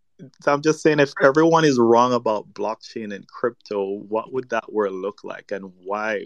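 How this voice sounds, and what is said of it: Caribbean accent. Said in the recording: “where in the Caribbean your accent's from ... I'm actually from Jamaica”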